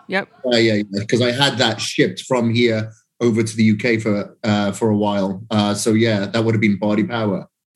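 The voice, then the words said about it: Loud, strong regional accent. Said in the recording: “loud, obnoxious accent”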